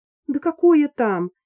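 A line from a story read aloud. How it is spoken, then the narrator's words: Choking sobs. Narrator (Russian): Алиса захлебнулась в рыданиях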